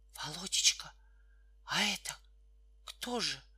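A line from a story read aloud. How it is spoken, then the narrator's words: Whispered mother's question. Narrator (Russian): спросила шепотом мать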